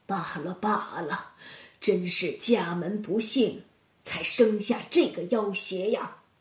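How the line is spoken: Frightened helpless muttering. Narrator (Chinese): 包员外不禁吓得倒抽了一口凉气，竟无奈的喃喃自语道

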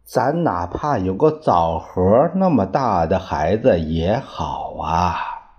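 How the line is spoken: Sighing couple. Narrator (Chinese): 夫妻两个人 常常叹着气说

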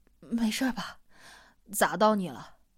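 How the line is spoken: Breathless apology. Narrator (Chinese): 他气喘吁吁的道歉

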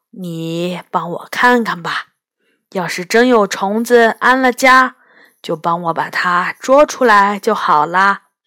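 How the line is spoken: Soft, tentative old man. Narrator (Chinese): 老爷爷探寻似的看着我的脸，然后轻声说

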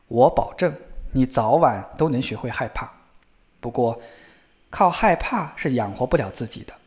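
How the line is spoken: Father, sighing. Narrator (Chinese): 父亲叹了一口气，对小儿子回答说

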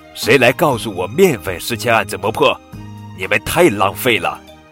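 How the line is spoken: Loud mother's roar. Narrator (Chinese): 围裙妈妈敞开嗓门吼道

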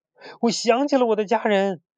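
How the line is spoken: Shouting. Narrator (Chinese): 他喊道

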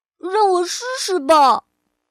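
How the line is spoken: Loud. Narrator (Chinese): 欧丽大声地说

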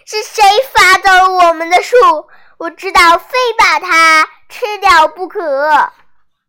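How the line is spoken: Loud roaring shout. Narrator (Chinese): 老虎大声喊道

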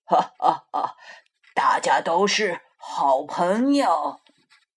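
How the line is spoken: Laughing. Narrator (Chinese): 霸王龙 笑着说

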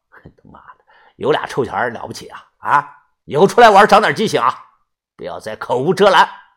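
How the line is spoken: Cold voice. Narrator (Chinese): 冷声的说道

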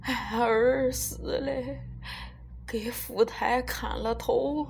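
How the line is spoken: Old man weeping. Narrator (Chinese): 这老头这时候彻底就哭起来了，一边哭一边说

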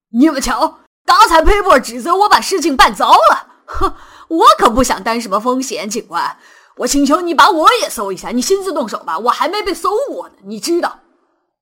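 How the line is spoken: Shrill. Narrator (Chinese): 这位律师尖声说道

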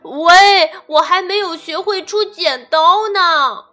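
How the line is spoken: Gorilla shouting loudly. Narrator (Chinese): 大猩猩大声地喊

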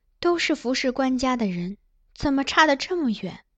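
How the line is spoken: Sighing exclamation. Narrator (Chinese): 于婕妤感叹道

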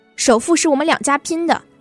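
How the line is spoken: Involuntary shout. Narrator (Chinese): 我忍不住喊

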